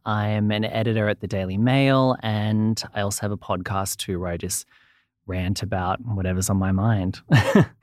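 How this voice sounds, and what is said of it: Australian accent. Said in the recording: “I'm from Australia, as you can probably hear from the accent.”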